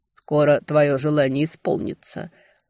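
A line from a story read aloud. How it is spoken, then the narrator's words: Grim promise. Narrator (Russian): мрачно пообещал ей Тальден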